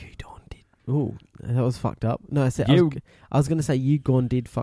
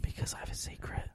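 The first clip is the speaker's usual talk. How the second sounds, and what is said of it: Whispering. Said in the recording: “Why are you whispering?”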